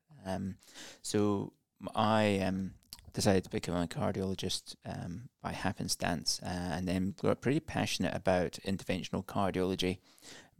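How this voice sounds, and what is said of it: Non-Australian accent. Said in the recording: “obviously from my accent, I'm I'm not Australian”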